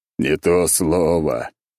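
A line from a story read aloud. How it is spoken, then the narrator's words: Groaning. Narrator (Russian): простонал я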